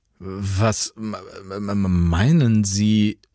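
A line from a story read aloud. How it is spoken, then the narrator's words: Irritated stammer. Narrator (German): stammelte Jan irritiert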